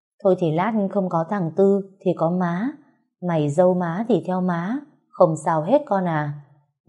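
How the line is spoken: Gentle old woman. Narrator (Vietnamese): Má chồng dịu dàng nói

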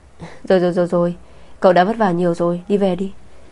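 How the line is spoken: Laughing. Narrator (Vietnamese): Lâm Tiểu Thanh bật cười

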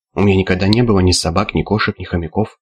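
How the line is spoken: Crisp clipped. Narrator (Russian): отчеканил Аспирин

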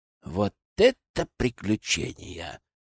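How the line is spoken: Envious sigh. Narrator (Russian): завистливо вздохнул Сева

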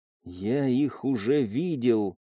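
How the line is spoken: Stunned whisper. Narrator (Russian): ошеломленно прошептал

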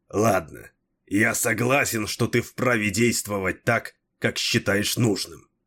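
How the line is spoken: Grumbling. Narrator (Russian): проворчал Дрибок

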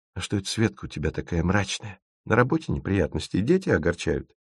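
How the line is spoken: Sudden whisper. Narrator (Russian): Лёлик вдруг спросил шепотом

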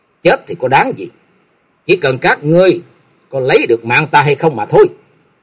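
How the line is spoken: Angry, through gritted teeth. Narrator (Vietnamese): Trần Lâm tức giận nghiến răng nói

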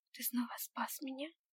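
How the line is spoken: Disbelieving whisper. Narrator (Russian): прошептала я, все еще не веря в происходящее

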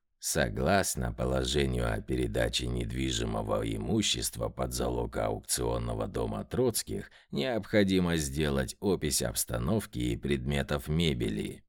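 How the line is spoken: Creaky voice. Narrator (Russian): скрипучим голосом проговорил Субботин

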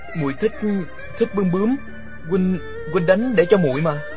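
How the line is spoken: Flustered stammering. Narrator (Vietnamese): Địch Dân bối rối, ấp úng nói

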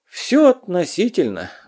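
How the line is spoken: Sighing old hermit. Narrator (Russian): вздохнул отшельник

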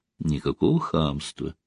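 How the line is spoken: Soft reply. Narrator (Russian): мягко ответила

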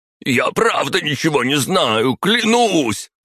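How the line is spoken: Shouting. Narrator (Russian): закричал он

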